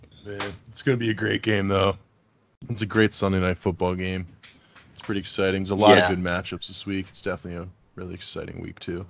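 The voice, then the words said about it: Deep, smooth low voice. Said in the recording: “did they replace you with Barry White? ... A nice little deep voice going on right now. ... A little smooth jazz.”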